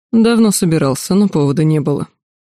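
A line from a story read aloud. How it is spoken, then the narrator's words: Calm snorting reply. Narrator (Russian): Кесарь невозмутимо хмыкнул и ответил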